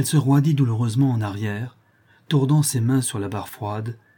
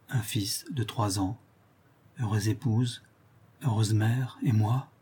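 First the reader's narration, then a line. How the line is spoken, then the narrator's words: Murmur. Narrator (French): murmura-t-elle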